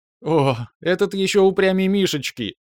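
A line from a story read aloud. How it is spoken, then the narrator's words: Laughing. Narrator (Russian): рассмеялась свекровь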